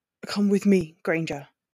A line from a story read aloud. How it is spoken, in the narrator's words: Draco leaned over her and growled